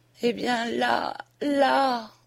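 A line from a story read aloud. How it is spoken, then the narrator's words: Faint, failing voice. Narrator (French): dit-elle d'une voix défaillante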